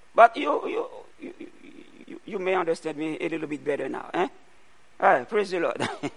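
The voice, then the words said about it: Heavy non-native English accent. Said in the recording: “my primary language is not English... I have what? Heavy accent.”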